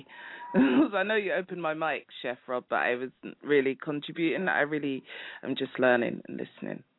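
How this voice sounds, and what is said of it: British accent. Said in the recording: “I'm from the UK ... love that accent ... That's marvelous”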